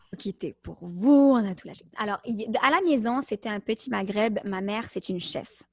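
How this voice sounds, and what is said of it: Slight Québécois French accent. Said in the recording (French): “vous entendez quand même le petit accent québécois”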